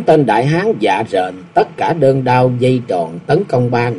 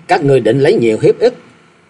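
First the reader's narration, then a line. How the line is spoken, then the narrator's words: Loud laughing. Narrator (Vietnamese): Doãn Tường cười lớn nói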